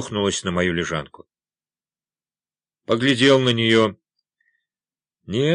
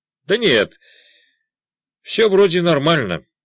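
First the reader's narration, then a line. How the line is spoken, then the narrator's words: Cheerful. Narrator (Russian): бодро сказал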